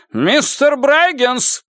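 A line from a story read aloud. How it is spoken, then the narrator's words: Sharp shout. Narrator (Russian): прикрикнул Нуз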